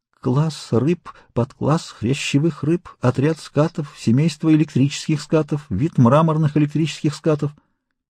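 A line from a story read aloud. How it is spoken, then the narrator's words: Broken whisper. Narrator (Russian): Консель ... этот вечный классификатор прошептал прерывающимся голосом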